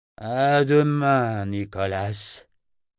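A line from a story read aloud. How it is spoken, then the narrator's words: Thick, tired voice. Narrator (French): dit d'une voix pâteuse de fatigue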